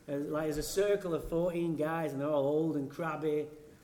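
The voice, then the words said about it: English accent. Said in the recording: “In England, that's where I'm from ... I have this accent.”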